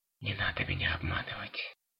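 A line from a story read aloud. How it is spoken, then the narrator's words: Barely audible whisper. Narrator (Russian): прошептал он едва слышно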